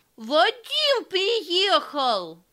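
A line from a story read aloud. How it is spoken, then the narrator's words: Joyful loud shout. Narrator (Russian): Коля, сияя от счастья, закричал во весь голос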